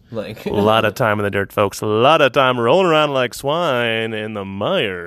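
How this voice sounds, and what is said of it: Put-on radio announcer voice. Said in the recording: “this is my radio voice ... I'm gonna cut the radio thing”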